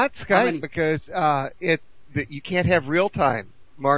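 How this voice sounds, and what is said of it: Usual voice. Nothing is said of it.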